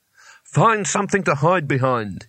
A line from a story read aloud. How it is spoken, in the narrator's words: barked, with his voice shaking only slightly